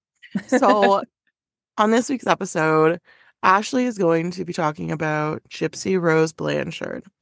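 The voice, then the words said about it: Sick-sounding voice. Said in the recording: “As you can tell by my voice, I'm still a little bit sick.”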